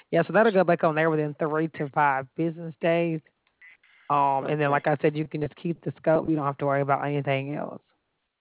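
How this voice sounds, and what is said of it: Alabama regional accent. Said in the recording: “I'm listening to your accent. It's not the quite... the same as mine ... I'm in Alabama.”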